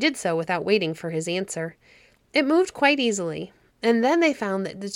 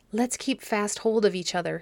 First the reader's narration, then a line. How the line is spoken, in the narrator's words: whispered